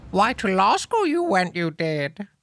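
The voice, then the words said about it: Yoda-style character voice. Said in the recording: “my Eugene as Yoda impression.”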